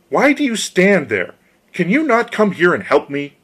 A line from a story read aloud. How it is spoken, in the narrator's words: cried